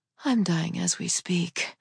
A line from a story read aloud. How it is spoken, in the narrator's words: I breathed